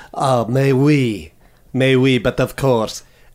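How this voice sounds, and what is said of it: Put-on French accent. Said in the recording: “French. You do a French one.”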